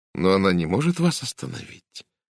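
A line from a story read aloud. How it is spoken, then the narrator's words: Gentle objection. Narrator (Russian): мягко возразила Сара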